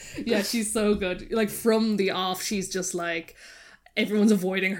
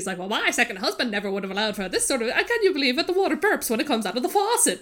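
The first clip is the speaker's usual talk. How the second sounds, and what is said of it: Put-on mid-Atlantic accent. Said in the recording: “that's a very good accent... that mid-Atlantic”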